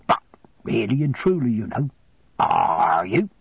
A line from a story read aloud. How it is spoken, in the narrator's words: growled Mr